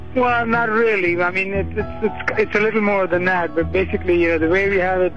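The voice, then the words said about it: Foreign accent. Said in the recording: “I'm not from here, obviously ... Obviously, that was kind of a dead giveaway there ... We're from another country, you know, you probably made out from the accent”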